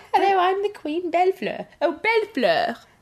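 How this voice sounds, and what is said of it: Put-on posh British accent. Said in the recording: “say ... It in a British accent.”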